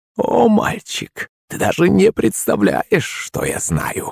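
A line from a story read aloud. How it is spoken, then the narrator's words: Creaky voice. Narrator (Russian): проскрипела она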